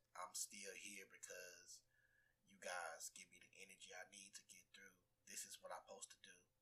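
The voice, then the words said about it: Hoarse voice. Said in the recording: “today I feel like my voice is hoarse,”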